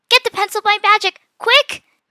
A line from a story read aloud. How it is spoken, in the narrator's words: Mia shouted